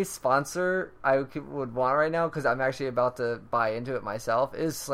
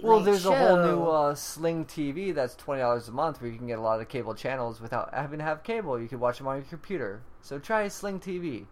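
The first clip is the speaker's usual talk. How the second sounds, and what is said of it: Very fast ad-read delivery. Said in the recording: “I said it really fast”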